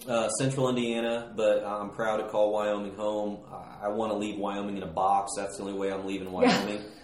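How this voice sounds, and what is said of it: Slight American twang. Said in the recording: “I hear a little bit of a twang”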